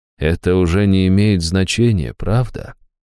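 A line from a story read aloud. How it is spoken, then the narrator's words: Soft, gentle. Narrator (Russian): мягко проговорил он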